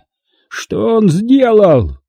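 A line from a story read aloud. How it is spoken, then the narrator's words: Frightened, strained voice. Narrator (Russian): Не на шутку струхнув, Тарантини еле выдавил из себя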